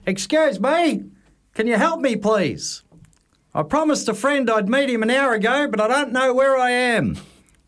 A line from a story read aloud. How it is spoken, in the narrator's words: shouted